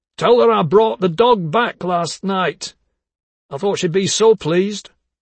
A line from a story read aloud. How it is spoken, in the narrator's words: called out